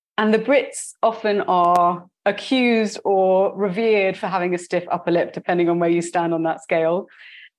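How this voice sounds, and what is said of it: British accent. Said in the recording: “you can tell from my accent that I was born in the UK”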